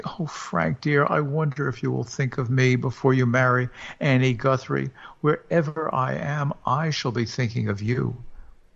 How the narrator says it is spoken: laughed a little, and then added suddenly

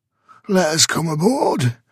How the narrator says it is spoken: croaked a hairy rogue

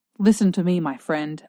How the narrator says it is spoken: I said harshly

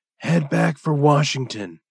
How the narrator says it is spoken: said the doctor with a sigh

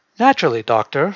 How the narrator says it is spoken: Hartnett said

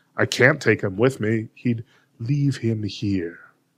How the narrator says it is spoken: Jesty said

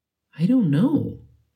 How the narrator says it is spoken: he said at length, in faltering tones

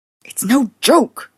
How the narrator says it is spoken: he snapped

